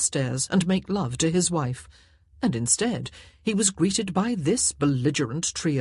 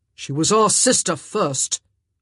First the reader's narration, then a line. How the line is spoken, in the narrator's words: Anthony growled